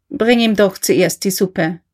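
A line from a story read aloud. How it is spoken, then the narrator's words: Plain. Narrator (German): sagte er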